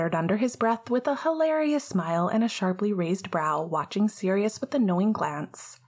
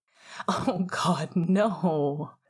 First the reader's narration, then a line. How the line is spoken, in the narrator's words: Sirius groaned loudly, a laugh spluttering out